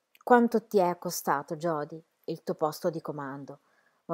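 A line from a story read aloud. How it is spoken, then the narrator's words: Loud murmur. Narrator (Italian): mormorò ad alta voce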